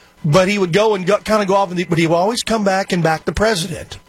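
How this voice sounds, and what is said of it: Usual voice. Nothing is said of it.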